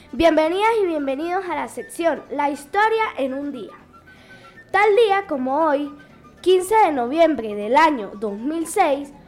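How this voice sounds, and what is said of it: Venezuelan Táchira regional accent. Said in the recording (Spanish): “con acento tachirense”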